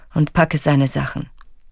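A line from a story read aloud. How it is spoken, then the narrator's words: Toneless. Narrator (German): sagt tonlos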